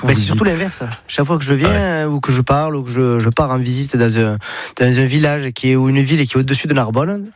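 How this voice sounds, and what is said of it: Sing-song southern French accent. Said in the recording (French): “avec l'accent, j'ai le package ... c'est chantant ça ... toi t'es du sud”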